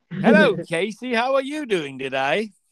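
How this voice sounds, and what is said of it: Put-on English accent. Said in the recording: “Jolly old England, eh? They talk like this, probably. ... That sounds like old English. ... I don't know how to do that accent.”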